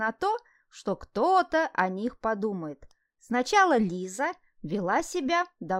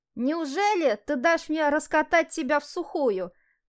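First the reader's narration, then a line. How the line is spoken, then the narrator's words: Mocking shout. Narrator (Russian): насмешливо выкрикнул он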